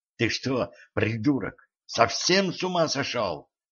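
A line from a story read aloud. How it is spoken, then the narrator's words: Hissing. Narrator (Russian): прошипела она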